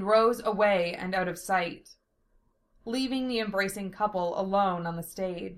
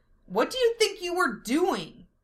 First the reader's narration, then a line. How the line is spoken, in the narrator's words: she yelled